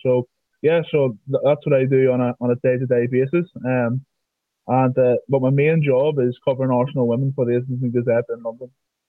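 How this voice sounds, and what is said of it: Northern Irish accent. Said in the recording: “I'm from Northern Ireland, as everybody can hear with my accent.”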